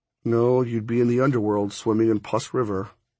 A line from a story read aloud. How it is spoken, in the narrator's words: I mumbled